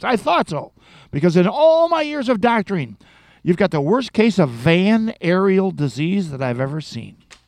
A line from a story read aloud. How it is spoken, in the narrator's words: Nodding his head knowingly, the doctor exclaims